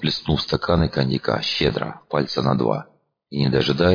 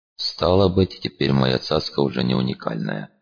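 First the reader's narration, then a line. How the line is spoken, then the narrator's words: Disappointed sigh. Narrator (Russian): разочарованно вздохнул он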